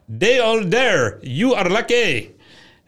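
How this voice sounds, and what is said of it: Put-on foreign accent. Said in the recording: “how's that for an accent, huh?”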